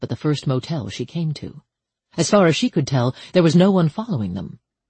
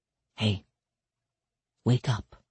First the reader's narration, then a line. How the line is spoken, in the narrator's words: said softly